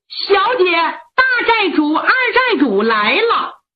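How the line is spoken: Loud shout. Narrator (Chinese): 玉瓶 冲着里边高喊

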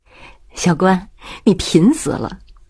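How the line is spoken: Quiet voice. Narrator (Chinese): 周荣小声地说

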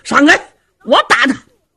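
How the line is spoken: Shout. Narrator (Chinese): 有人喊了一声

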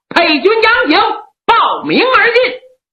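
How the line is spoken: Shouting. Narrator (Chinese): 里边有人喊

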